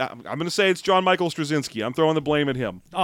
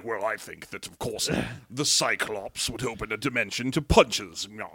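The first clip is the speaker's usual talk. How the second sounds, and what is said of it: Vaguely British accent impression. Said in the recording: “That was my impression of Alan Moore, based on no idea other than that I think he is vaguely British.”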